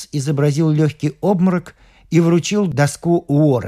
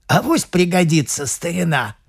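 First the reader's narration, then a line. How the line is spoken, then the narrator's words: Hoarse speech. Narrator (Russian): сипло сказал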